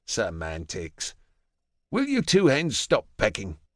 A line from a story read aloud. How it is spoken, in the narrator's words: Alexander snaps